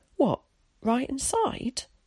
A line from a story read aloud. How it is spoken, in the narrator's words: exclaimed Willie